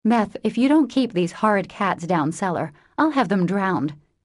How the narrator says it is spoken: exclaimed Meg angrily

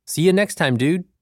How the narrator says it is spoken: About 5 yards off, Liam called out to me

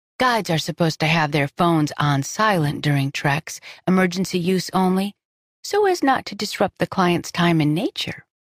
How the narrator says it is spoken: she said sweetly

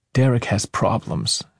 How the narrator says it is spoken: she murmured

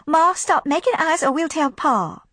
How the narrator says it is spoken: the girls cried

